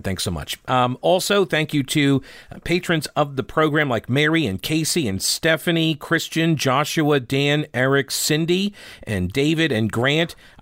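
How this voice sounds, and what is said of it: Slightly harsh, rough voice. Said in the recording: “The pollen is finally getting to me. And so that's my voice sounds a little harsh today. I can hear it. Maybe you can't.”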